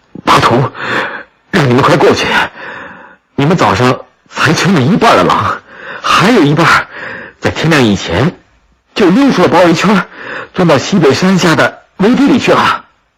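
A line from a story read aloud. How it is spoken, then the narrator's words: Breathless, urgent. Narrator (Chinese): 十万火急 马官布赫气喘吁吁地 说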